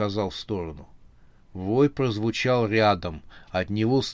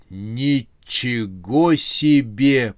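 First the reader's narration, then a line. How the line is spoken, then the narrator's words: Amazed drawl, then cry. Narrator (Russian): протянул изумленно ракета и затем вскрикнул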